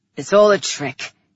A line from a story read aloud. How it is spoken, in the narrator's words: he said, his voice rough